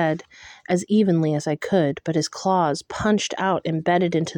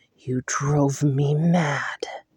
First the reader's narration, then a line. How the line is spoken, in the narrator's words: growled